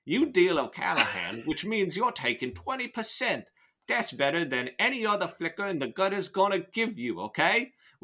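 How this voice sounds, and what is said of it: Put-on British accent. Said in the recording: “I'll keep up the accent ... Where is the fuck is this accent going? ... I have, like, 5 different media references for British accents in my head”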